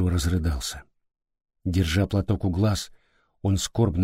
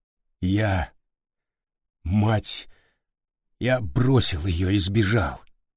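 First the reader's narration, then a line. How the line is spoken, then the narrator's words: Strained, forced out. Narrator (Russian): Выдавил из себя Суетиру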